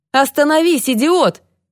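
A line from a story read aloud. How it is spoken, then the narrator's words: Policeman yelling. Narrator (Russian): вопил полицейский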